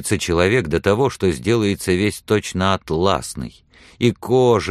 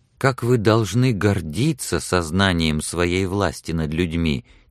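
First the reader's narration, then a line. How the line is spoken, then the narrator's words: Quiet, proud. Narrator (Russian): тихо сказала Сексон, чувствуя, что она сама гордится его силой и ловкостью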